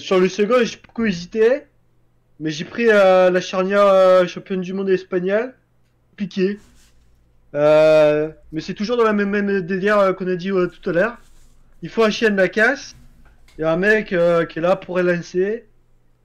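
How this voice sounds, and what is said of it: Exaggerated put-on accent. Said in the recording (French): “tu peux reparler normalement ... il est dégueulasse ... ton accent ... je sais pas qui tu refais”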